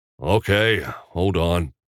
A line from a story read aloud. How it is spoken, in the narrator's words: muttered